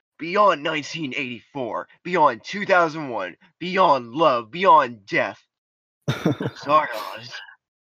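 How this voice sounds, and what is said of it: Dramatic movie-trailer reading voice. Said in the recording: “I am reading that in the exact dramatic voice it probably should be read in.”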